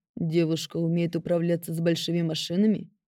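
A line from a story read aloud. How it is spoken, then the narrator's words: Velvety, slightly growling, commanding. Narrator (Russian): Прозвучал вопрос от его величества, какой у него красивый голос, бархатный, немного рычащий, властный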